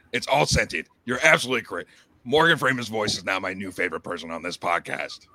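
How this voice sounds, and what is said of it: Strained, worn-out hoarse voice. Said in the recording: “My voice is fucking shot from doing that shit. ... thinking it was going to heal my voice ... I just fucking Alex Jones my voice into oblivion.”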